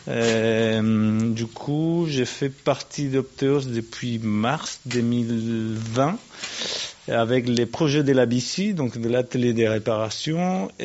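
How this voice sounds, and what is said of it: Non-native accent speaking French. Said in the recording (French): “avec mon accent”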